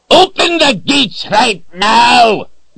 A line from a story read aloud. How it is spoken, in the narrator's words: Zed bellowed